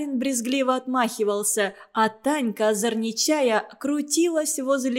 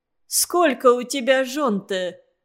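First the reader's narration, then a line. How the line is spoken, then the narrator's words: Question after much laughter. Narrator (Russian): спросила Зина Заварухина, вдоволь насмеявшись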